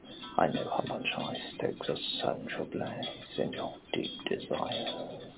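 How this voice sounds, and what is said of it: Sultry, erotic voice. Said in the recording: “the erotic tones of my sexy voice”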